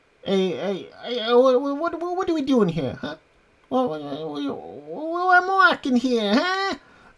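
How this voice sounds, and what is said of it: Attempted New York Italian accent. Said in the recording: “I don't think I could do an Italian, a New York Italian accent, but let me try.”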